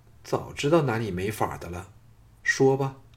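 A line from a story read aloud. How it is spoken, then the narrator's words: Sighing, softening. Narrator (Chinese): 朱姬再叹一口气，声音转柔说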